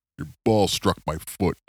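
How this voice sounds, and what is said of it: Very deep imitated voice. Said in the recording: “He has a very deep voice.”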